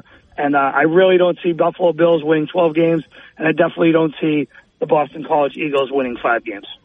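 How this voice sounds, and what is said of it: Boston accent. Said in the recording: “with your accent, how could I not trust you on something from Boston”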